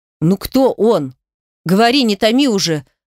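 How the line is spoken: Stern demand. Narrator (Russian): строго потребовал Кирилл

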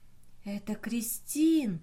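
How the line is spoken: Whisper. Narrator (Russian): прошептала Джуди

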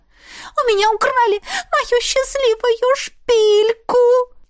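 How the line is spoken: Sobbing. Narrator (Russian): всхлипнула она

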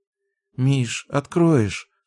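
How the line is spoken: Sleepy mumble. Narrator (Russian): сонно пробормотала Даша

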